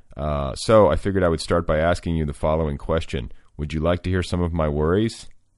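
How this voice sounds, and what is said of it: Slightly deeper voice than usual. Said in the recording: “I have a bit of a chest cold, so my voice is a little bit, I feel like it's a little bit deeper than usual”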